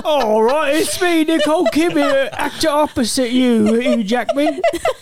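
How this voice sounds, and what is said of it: Bad put-on Australian accent. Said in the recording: “Have you ever heard an Australian accent before?”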